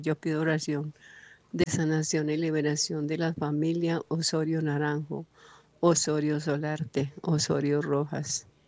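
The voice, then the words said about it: Pleasant, announcer-like voice. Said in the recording (Spanish): “Tan bonita voz, tan, se le escuchó muy bonita a voz. ... Tiene una voz muy bonita ... Tiene voz de locutora.”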